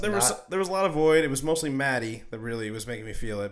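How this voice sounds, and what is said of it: Sick-sounding voice. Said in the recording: “I picked up an accent. ... No, I'm also sick. It could be that.”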